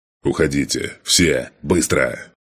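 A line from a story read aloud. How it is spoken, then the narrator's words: Roared. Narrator (Russian): проревел я своим бойцам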